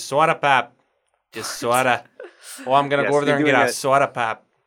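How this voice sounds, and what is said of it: Minnesota or North Dakota accent. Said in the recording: “like a Minnesota or like North Dakota accent”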